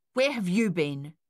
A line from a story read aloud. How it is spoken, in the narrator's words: snapped